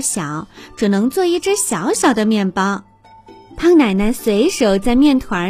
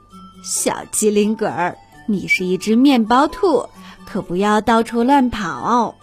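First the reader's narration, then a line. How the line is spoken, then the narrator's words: Grandmother, smiling. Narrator (Chinese): 胖奶奶笑着说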